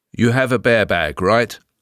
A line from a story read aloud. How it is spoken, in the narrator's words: asked Aspen